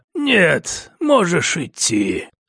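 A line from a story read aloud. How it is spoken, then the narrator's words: Dry reply. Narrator (Russian): ответил сухим голосом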